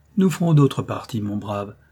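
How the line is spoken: Condescending tone. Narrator (French): dit-il à l'Aragonais d'un ton de supériorité

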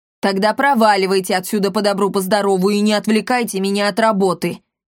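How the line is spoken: Barking. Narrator (Russian): рявкнул Полиамор

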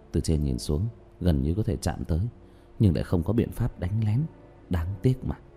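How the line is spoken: Muttering. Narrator (Vietnamese): Diệp Thiếu Dương lẩm bẩm nói

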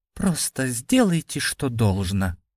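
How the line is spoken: Soft. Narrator (Russian): мягко сказал Андрей

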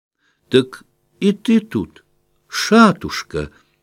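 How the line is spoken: Sudden exclamation. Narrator (Russian): воскликнула вдруг

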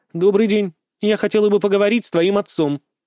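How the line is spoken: Stern. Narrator (Russian): строго произнесла мама Айки

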